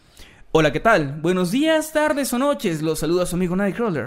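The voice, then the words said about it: Radio announcer voice. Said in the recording (Spanish): “me gustaría que me saludaran con voz de locutor”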